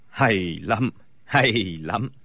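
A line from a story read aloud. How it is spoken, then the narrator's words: Smiling speech. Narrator (Vietnamese): Bối Hải Thạch mỉm cười nói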